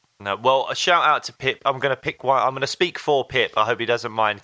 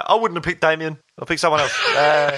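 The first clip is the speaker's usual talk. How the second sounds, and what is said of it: Impression of a friend's voice. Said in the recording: “that's a great impression of Pip, wasn't it? ... Yeah, it's brilliant.”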